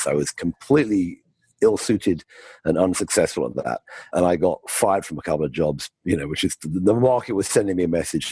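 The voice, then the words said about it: British accent. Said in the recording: “I grew up in the UK, as you can tell by my, my accent.”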